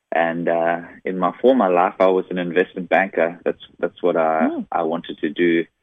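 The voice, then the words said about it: South African accent. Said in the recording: “this funny, weird accent ... I'm originally from South Africa.”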